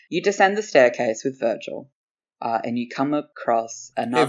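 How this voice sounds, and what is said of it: Sultry dungeon master narrator voice. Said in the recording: “put on my DM voice. It's very sultry.”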